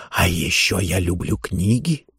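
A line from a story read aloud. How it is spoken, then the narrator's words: Whispered. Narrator (Russian): шептал он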